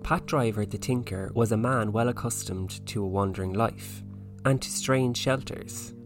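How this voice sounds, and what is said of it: Put-on Donegal Irish accent. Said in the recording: “Can you do the Donegal accent? ... Hopefully I'll be able to do it justice.”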